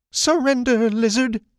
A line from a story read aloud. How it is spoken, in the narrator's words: he squeaked